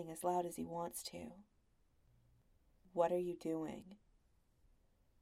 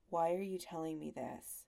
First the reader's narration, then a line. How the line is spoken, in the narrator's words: His voice is flat, and barely a question at all